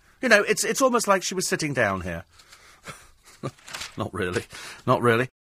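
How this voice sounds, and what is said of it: Usual voice. Nothing is said of it.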